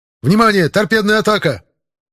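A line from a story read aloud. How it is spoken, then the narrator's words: Shouted alert, radar operator. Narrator (Russian): выкрикнул оператор РЛС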